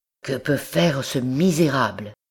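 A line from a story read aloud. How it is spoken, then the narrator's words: Murmured. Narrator (French): murmura-t-il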